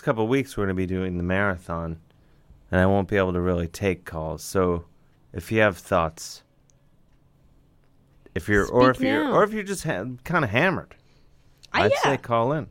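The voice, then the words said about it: Smooth radio voice. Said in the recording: “You do have a voice for radio. ... You got a smooth...”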